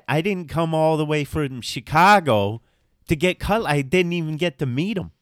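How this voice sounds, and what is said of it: Exaggerated Chicago accent. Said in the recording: “how many girls are from Chicago? And I'm barely exaggerating the accent.”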